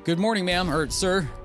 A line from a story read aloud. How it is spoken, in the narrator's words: Jeremy awkwardly blurts out